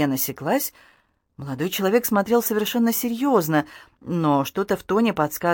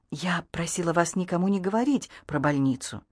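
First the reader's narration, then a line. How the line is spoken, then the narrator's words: Whispering. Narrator (Russian): Вивьен зашептала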